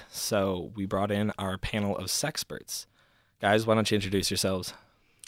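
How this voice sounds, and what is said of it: Soft, sultry bedroom voice. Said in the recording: “Was that your bedroom voice when you started off? ... it's the bedtime story”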